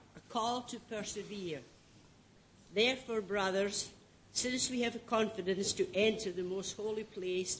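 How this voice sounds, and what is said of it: Scottish accent. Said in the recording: “someone with a Scottish accent”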